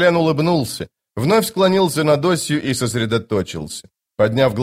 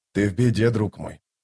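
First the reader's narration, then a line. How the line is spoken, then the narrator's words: Quiet. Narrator (Russian): тихо проговорил Остряк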